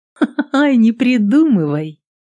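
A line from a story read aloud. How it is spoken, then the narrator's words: Melodious laughter. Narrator (Russian): Мелодично засмеялась Адель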